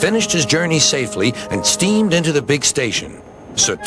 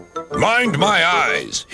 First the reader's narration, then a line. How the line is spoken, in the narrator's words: he grumbled